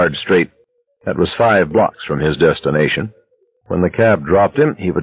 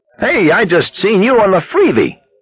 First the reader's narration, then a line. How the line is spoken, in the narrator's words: the cabbie exclaimed